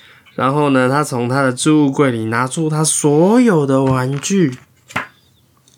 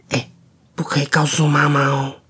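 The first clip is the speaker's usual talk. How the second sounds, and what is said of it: Quiet, hushed voice. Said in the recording (Chinese): “小声的对他说”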